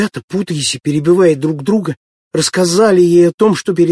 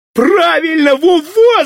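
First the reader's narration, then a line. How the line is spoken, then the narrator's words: Shouting. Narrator (Russian): закричал Володька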